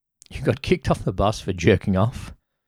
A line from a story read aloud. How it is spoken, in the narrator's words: Ben laughed harder than he had in this entire trip so far